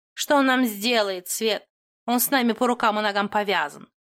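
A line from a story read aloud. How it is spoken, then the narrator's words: Snorting cat. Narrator (Russian): хмыкнула кошка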